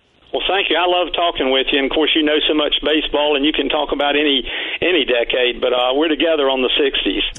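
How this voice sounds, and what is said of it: North Carolina accent. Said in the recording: “I love that North Carolina accent. ... It's always fun to hear.”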